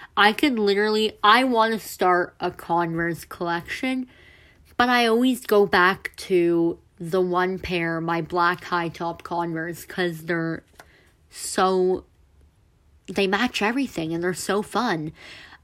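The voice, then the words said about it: Congested, sick-sounding voice. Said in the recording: “I feel myself getting sick ... my voice is going all weird ... make weird noises ... it's kind of getting hard to breathe through my nose right now”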